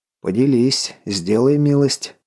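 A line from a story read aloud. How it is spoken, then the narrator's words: Wry snort. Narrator (Russian): хмыкнул Головин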